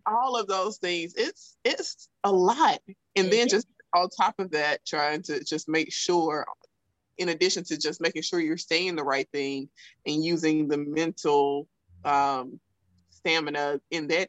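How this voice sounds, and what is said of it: Thick Southern US accent. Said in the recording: “I'm from South Alabama ... my thick Southern accent”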